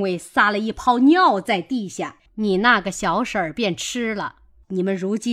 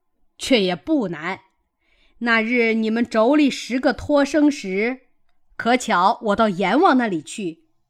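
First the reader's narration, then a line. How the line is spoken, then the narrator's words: Laughing. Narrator (Chinese): 孙行者笑道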